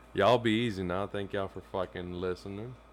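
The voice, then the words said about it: Sudden Southern drawl. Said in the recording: “why'd you turn on the Southern drawl all of a sudden?”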